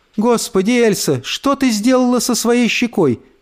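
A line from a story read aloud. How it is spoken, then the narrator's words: Alarmed cry. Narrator (Russian): вскрикнула мама с восклицательным знаком в конце, когда увидела три царапины у нее на щеке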